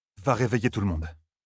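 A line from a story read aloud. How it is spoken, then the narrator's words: Very calm. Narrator (French): dit très calmement Rand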